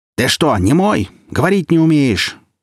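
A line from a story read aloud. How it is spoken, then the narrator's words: Yelling even louder. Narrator (Russian): еще громче заорал Джон Дебуль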